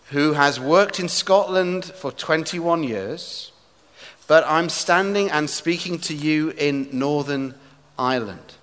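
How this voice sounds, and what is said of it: English accent. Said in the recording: “I am speaking as an Englishman ... Please forgive my accent”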